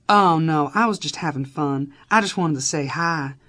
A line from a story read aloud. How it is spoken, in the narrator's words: she said in her adorable, thick Kentucky accent